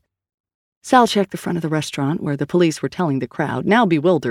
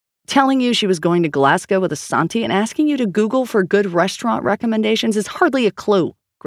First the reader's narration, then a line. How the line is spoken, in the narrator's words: Grace snapped